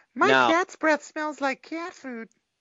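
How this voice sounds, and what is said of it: Ralph Wiggum impression. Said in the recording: “doing a Ralph Wiggum impression”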